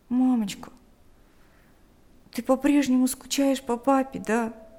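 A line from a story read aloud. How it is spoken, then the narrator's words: Quiet question. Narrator (Russian): тихо спросил Ник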